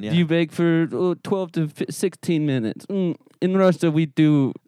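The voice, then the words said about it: Faltering put-on Russian accent. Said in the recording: “Your accent's falling apart, though.”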